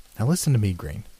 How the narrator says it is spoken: said Marriott as calmly as he could, for the breathing was still plainly audible

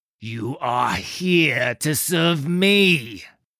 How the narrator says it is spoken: growled

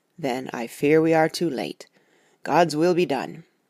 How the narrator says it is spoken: he said solemnly

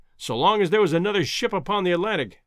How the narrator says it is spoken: exclaimed Professor Summerlee heartily

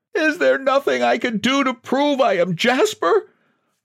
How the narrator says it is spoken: He wailed

